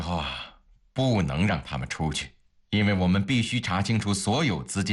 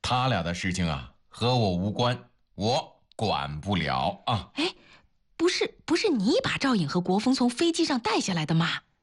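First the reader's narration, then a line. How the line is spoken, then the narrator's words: Loud. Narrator (Chinese): 他大声地说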